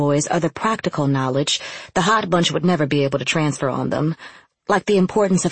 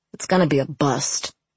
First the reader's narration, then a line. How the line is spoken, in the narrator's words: Sniff muttered